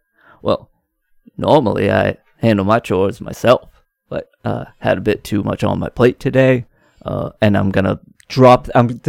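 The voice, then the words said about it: Terrible put-on Maine accent. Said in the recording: “this accent's going to be messed up all day, but I just love this terrible main accent that Fred Gwynne does”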